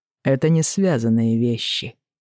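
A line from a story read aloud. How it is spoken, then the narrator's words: Cold reply. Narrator (Russian): холодно отвечает Стефан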